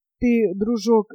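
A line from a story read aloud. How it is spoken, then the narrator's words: Pitiful voice. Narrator (Russian): жалким голосом сказал я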